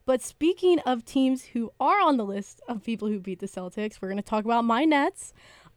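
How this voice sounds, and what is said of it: Cheerful, happy-sounding voice. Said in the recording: “I don't know why I'm saying that in a happy voice”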